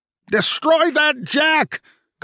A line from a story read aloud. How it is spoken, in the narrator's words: Culpin shouted